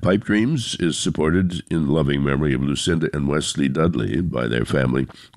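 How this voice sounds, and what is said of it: Sick, cold-affected voice. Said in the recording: “I do apologize for my voice. I've come down with a cold”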